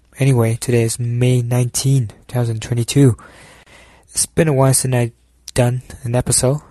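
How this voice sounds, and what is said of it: Slightly unhealthy, sick-sounding voice. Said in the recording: “My voice is a little bit not healthy. Something about the cold weather.”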